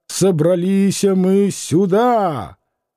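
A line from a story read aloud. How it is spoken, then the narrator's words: Drunken growl. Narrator (Russian): Преждевременно зарычал пьяный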